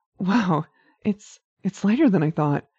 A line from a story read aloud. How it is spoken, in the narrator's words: Winry exclaimed, eyes wide with astonishment